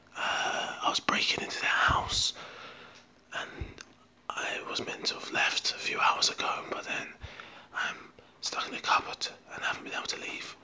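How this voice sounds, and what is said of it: Whispering, damaged rough voice. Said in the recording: “I'm whispering because listen to that. Hear that voice. It is dreadful.”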